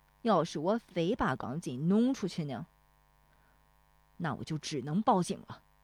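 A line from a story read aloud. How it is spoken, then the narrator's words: Angry. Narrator (Chinese): 大棒槌恼怒了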